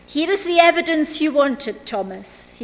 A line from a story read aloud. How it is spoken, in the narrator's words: he said